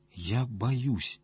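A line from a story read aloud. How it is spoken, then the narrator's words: Barely audible. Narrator (Russian): еле слышно проговорила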